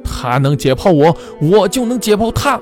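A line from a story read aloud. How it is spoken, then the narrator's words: Shouting. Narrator (Chinese): 教授高喊着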